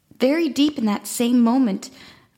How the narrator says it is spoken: I cried loudly

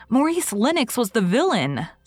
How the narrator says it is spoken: said Anne indignantly

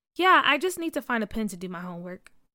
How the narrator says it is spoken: said

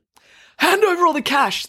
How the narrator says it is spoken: the robber yelled

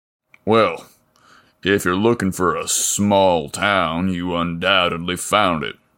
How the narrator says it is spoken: Leo belted out with a chuckle

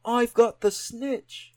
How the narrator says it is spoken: he shouted

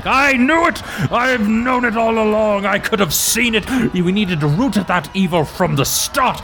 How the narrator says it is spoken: a dwarf yells out

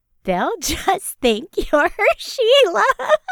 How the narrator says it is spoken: giggled Iris

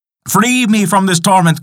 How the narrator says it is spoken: cried Yukahainen

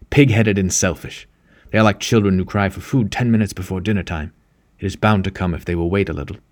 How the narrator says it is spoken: added fiercely

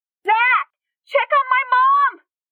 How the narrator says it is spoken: She screamed with her thoughts

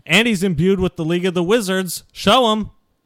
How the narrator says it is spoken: I yell out, I say

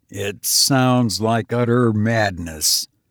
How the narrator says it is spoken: muttered

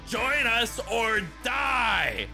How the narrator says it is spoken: Ollie screamed

